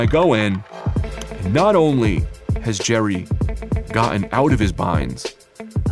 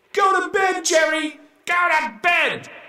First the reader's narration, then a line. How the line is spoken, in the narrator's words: Jerry's roommate screaming